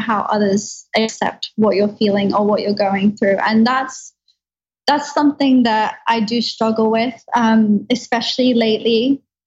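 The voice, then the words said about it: Speaks with a lovely accent. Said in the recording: “everything you say just sounds so much more lovely with your accent”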